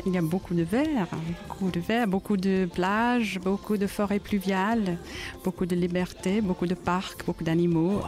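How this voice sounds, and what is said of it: Slight British accent in French. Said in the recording (French): “Vous avez un petit accent du Belize... c'est plutôt le côté britannique... C'est un accent plutôt britannique, mais ça peut être Belize aussi”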